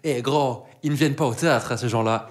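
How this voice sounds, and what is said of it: Quotes someone in a strong accent. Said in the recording (French): “avec le plus bel accent possible”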